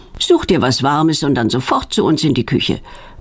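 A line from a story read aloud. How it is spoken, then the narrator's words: Stern mother commanding. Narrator (German): befiehlt Petronellas Mutter streng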